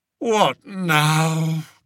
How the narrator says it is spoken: groaned Spittleworth, who very much wanted his bath and bed

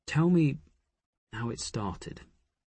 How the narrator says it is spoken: he said gently

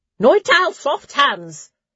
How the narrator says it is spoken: Sister Tallow called out

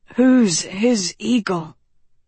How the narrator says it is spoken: Tedros murmured

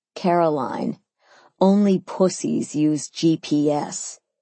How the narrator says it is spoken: he scoffed

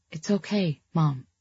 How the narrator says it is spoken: I said softly so as not to hurt her feelings

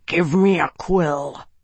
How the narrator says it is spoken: he growled

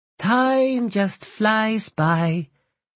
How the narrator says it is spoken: she said with a sigh

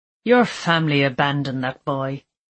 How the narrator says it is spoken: he sneered

